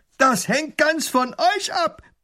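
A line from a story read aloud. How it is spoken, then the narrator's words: Robber's roar. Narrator (German): brüllt der Räuber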